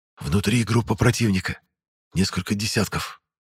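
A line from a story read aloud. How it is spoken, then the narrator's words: Whispered. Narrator (Russian): шепотом сказал я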